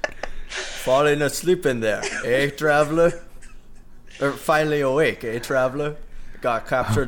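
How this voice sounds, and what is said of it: Bad Skyrim Nord impression. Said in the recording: “I do a bad Nord impression.”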